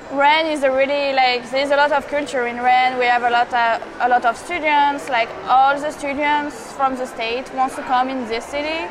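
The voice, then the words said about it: French accent. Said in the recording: “she is also from France, if you hear the accent.”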